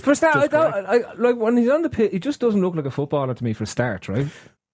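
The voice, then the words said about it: Speaks with an unusual accent. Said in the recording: “has a weird accent.”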